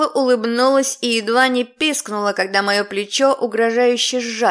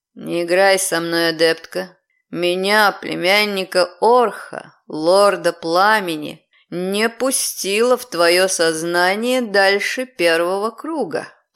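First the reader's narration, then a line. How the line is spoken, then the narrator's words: Growled. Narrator (Russian): прорычал он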